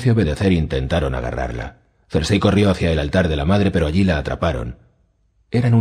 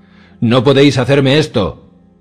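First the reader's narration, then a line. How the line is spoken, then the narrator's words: Queen keeps shouting. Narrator (Spanish): siguió gritando la reina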